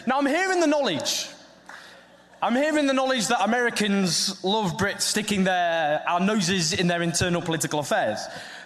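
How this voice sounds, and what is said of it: Northern English accent. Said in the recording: “my Northern English accent ... it sounds ridiculous”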